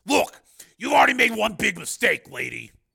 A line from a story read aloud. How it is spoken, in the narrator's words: snapped the marshal